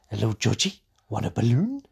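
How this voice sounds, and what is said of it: Pennywise the Clown impression. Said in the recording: “my horrific impression of Pennywise the Clown”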